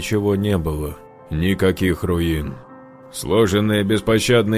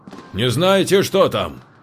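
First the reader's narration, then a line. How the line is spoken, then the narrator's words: Shouted. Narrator (Russian): крикнул Юра незнакомцу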